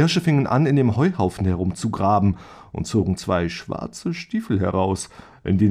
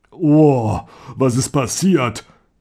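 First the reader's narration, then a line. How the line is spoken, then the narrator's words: Deep voice. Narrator (German): fragte er mit dunkler Stimme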